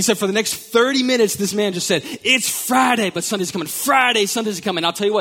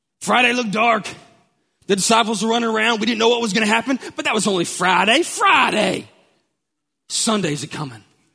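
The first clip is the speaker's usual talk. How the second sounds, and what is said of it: Impression of an African American preacher. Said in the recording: “The African American preacher, it's my best impersonation.”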